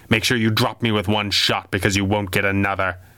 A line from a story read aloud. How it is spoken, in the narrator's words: the masked man growled without turning